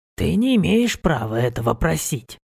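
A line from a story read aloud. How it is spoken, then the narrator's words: Soft but firm. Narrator (Russian): сказал он мягко, но без сомнения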